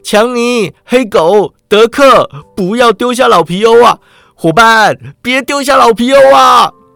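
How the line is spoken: Panicked cry. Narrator (Chinese): 皮欧发现自己走错路了，大叫一声

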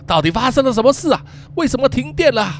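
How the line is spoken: Loud shouting. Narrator (Chinese): 他大喊了几声

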